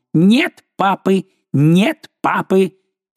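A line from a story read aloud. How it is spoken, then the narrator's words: Mocking shout. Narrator (Russian): один из них насмешливо крикнул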